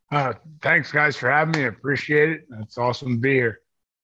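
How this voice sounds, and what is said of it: Hoarse, strained voice. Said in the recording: “Sorry for my voice, by the way. ... I'm still a little. Uh, you're you know. you're cheering and, you're ramped up ... totally burnt throat”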